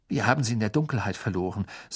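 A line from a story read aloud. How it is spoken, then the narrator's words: Plain. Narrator (German): sagte Ron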